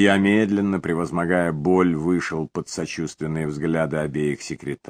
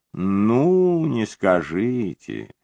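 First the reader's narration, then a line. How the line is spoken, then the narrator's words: Drawn out. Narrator (Russian): протянула Джоан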